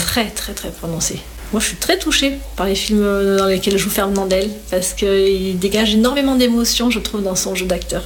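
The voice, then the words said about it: Mild sing-song Var Provençal accent. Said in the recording (French): “Tu as un petit accent, c'est l'accent du Var ... moins rude que le Marseillais et moins chantant que le Niçois quand même ... Il y a de la poésie dans cet accent ... c'est chantant”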